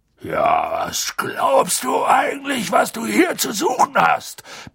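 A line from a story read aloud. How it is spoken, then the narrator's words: Sudden roar. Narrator (German): brüllte er so plötzlich los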